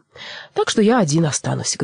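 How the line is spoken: Sad voice. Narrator (Russian): грустно промолвил Буре

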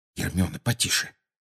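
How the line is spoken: Muttering. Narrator (Russian): пробормотал Гарри

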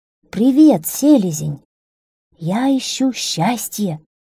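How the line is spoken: Plain, donkey. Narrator (Russian): сказал ослик

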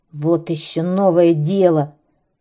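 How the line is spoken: Grumbling serpent. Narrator (Russian): проворчал змей

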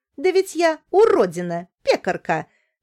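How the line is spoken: Laughing. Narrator (Russian): говорила, смеясь

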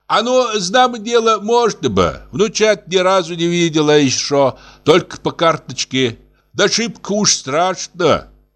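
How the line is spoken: Old woman, loud. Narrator (Russian): бабка ей громко

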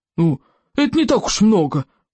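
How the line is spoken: Roar. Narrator (Russian): проревел Стоик обширный

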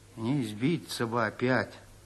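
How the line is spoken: Gloomy. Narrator (Russian): сказал мрачно

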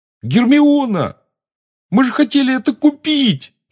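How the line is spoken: Yelling. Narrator (Russian): завопил Рон

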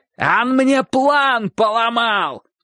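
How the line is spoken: Shouting. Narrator (Russian): кричал Соболев

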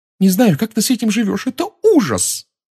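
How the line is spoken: Blurted out. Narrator (Russian): выпалила она

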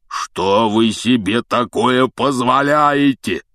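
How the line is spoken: Booming thunderous male voice. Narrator (Russian): прогремел он так, что все трое подпрыгнули

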